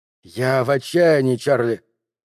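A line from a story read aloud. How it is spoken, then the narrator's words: Strained, weary, fearful. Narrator (Russian): выдавил, наконец, мой собеседник, и действительно, его голос был полон усталости, страха и глухой тоски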